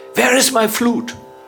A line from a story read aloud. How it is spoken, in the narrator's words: he would also shout